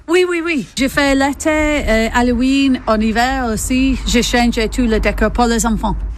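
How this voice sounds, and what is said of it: English accent speaking French. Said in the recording (French): “D'où vous vient votre accent? ... j'ai venu d'Angleterre”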